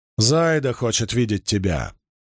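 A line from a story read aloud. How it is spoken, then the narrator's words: Growled. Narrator (Russian): прорычала Бергитте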